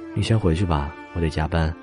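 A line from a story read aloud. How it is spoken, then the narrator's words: Helpless sigh. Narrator (Chinese): 蚊子无奈的轻叹一声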